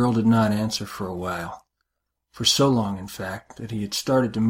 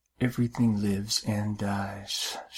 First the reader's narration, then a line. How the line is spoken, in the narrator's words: she whispered